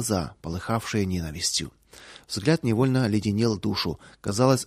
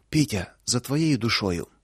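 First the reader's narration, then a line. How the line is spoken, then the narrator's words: Breathed out. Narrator (Russian): только и выдохнула Луша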